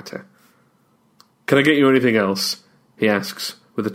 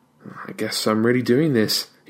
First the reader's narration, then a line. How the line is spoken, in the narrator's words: he mutters